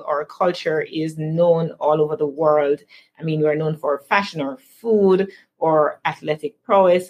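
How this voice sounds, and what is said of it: Jamaican accent. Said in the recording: “You guys have an amazing accent. ... the wonderful accent that we have”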